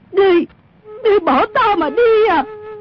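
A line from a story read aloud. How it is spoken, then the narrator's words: Alarmed woman shouting. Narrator (Vietnamese): Mụ biến sắc la lên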